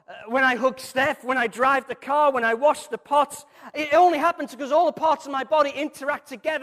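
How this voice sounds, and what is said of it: Scouse Liverpool accent. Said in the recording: “my corrupted Scouse accent”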